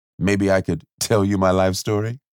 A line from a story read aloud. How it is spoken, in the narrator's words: Coop laughed